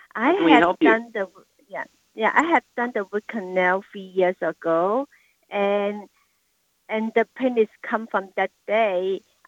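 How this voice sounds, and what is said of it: Speaks English with an accent. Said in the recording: “you have an accent.”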